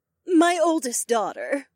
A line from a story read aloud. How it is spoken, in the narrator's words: Elizabeth sighed